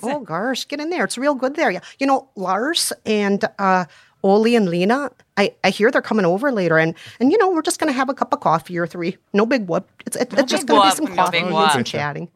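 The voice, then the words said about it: Put-on Minnesotan accent. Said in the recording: “While you all practice your Minnesotan accent”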